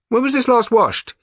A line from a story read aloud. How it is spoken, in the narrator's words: He called out